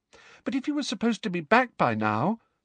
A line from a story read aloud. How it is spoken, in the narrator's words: said Hermione in a small, anxious voice